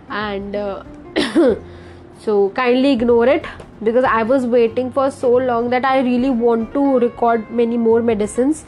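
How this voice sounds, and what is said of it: Congested, slightly hoarse voice. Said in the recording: “there's a lot of congestion on my nose and my sinuses ... my voice might seem different to all of you. Also, I'm having a little bit of hoarseness in my throat”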